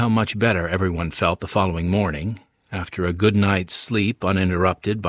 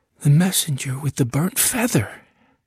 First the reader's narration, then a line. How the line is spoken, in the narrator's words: exclaimed